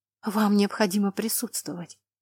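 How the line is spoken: Whispered reply. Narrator (Russian): шепотом отозвалась она

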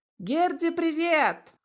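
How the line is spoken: Shouted greeting. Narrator (Russian): крикнул

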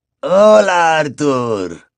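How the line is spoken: Weary reply. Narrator (Spanish): respondió Basil con voz cansina

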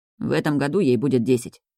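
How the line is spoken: Gloomy mutter. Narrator (Russian): пробормотал мрачно

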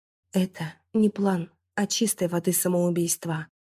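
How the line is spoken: Exhaled words. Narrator (Russian): выдохнула я

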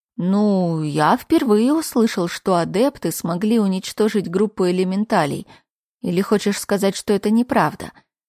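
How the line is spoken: Plain. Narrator (Russian): сказал Итан

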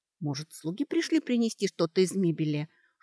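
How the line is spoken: Whispered guess. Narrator (Russian): шепотом предположила Кейтрия

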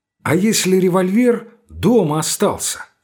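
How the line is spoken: Plain. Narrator (Russian): спросил Лбов

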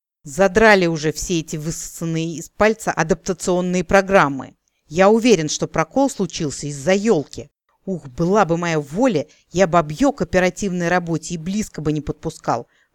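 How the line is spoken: Indignant halfling exclaiming. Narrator (Russian): воскликнул обесчищенный в профессиональном плане полурослик

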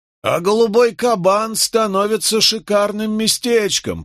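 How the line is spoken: Loud pointed remark. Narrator (Russian): произнес так громко, чтобы мы слышали

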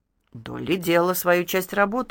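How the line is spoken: Displeased mutter. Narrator (Russian): недовольно буркнула Кити

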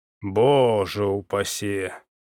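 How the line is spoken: Breathed out. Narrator (Russian): выдохнул пришелец

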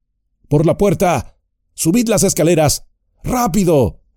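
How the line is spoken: Shouted. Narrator (Spanish): gritó Gandalf

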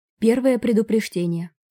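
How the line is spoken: Even, flat voice. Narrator (Russian): ровным голосом произнес Бальба

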